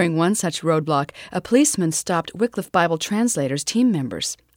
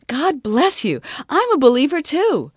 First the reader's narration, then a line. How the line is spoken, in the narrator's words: exclaimed